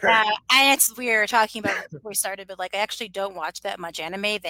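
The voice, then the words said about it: Slightly hoarse voice. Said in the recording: “I'm a little hoarse. I'm a little hoarse”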